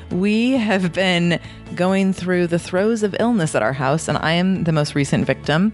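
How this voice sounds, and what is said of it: Hoarse, sick-sounding voice. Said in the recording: “there is definitely no hiding my super sexy radio voice today ... my throat is killing me ... I sound a little different”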